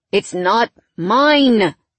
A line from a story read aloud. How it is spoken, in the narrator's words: he groaned